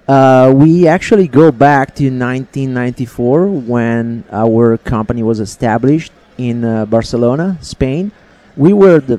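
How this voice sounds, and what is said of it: Speaks English with a foreign accent. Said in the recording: “Is that why you got an accent? ... The accent is not going to go anywhere.”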